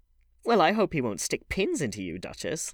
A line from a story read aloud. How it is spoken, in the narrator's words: laughed Dorian